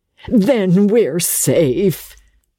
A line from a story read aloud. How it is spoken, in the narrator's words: she sighed